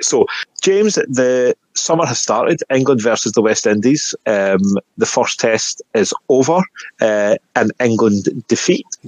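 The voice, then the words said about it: Scottish accent. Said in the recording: “I may have a Scottish accent”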